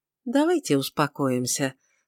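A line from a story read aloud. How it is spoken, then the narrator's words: Conciliatory tone. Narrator (Russian): сказал он примирительным тоном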